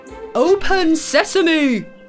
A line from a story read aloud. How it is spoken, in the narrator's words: The leader of the men yells